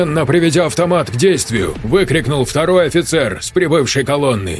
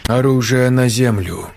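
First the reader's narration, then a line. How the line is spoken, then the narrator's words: Calm steady tone. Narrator (Russian): спокойным тоном повторил Пашков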